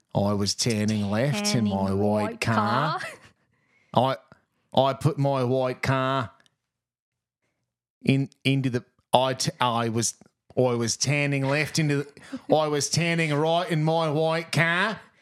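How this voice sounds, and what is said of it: Put-on accent. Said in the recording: “For years we've been practicing this accent.”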